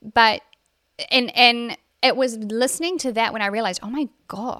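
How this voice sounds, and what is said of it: Usual voice. Nothing is said of it.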